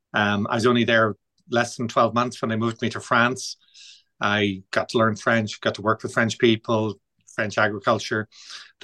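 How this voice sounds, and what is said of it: Irish accent. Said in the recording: “joined them in Ireland, as you can tell from the accent.”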